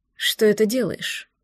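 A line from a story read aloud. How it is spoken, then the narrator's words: Hoarse voice near ear. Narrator (Russian): спросил над ухом хриплый голос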